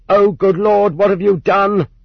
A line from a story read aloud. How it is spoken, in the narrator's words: shouted